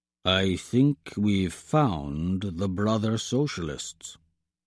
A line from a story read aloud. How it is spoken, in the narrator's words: he mutters to Misha, his voice pitched low so that it won't carry over the background noise on the flight deck